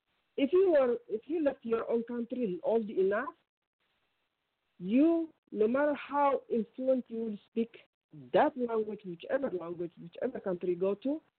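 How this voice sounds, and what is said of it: Ethiopian accent. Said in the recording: “What country is that accent ... Ethiopian.”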